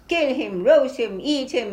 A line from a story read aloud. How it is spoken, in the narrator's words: they had been shouting fiendishly